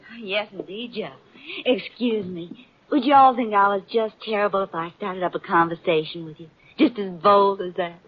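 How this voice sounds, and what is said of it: Kentucky accent. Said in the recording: “You're making fun of my accent. I'm from Kentucky.”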